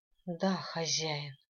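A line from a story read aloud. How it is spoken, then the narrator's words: Resigned exhale. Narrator (Russian): обреченно выдохнула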